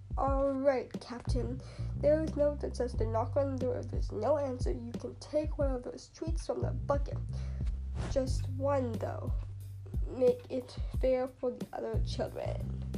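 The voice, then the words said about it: Exaggerated pirate voice. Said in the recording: “put on my best pirate voice. ... He said in his best pirate voice.”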